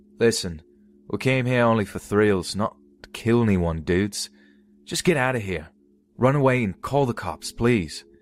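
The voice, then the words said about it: Thick Australian accent. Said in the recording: “in his thick Australian accent”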